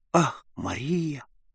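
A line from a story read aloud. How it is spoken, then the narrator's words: Exclaiming with a deep sigh. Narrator (Russian): воскликнул он, вздохнул из глубины сердца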